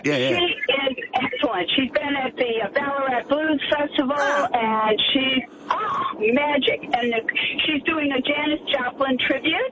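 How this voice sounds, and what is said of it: Slight American Chicago-area accent. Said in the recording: “the slight accent. Are you Canadian or? ... No, it's a 50-year-old American accent. ... Chicago area.”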